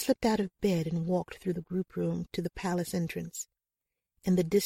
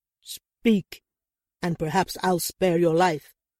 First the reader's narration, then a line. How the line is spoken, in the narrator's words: Adeguke barked